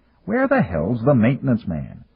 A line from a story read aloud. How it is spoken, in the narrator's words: he growled